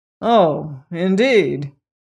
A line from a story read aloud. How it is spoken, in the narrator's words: exclaimed the king